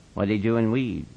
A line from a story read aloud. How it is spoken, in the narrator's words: Slim asked calmly